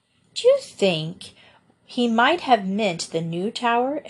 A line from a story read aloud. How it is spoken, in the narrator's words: exclaimed Joe suddenly